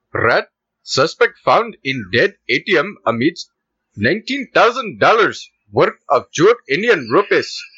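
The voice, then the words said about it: Put-on Indian accent. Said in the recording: “The Indian accent.”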